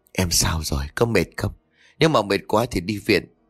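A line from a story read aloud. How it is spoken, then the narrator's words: Quiet. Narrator (Vietnamese): Trường lúc này nhỏ giọng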